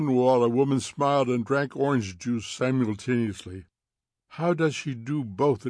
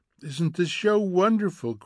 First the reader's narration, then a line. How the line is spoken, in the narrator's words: cried Mildred